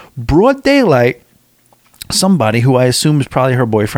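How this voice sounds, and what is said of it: Usual voice. Nothing is said of it.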